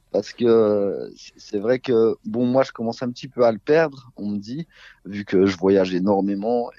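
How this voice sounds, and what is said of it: Belfort regional French accent, distinctive R. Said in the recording (French): “notre accent ... cet accent quand même du territoire qui est qui est unique ... vous venez de la Suisse, vous venez de la, de, la Belgique ... cette manière notamment de prononcer les R”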